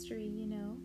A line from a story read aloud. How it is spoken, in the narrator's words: said Alice